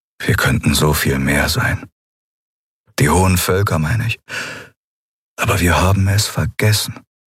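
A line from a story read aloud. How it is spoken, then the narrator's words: Sad. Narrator (German): Er klang traurig, als er sagte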